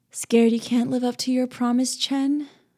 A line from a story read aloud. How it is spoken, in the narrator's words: I purred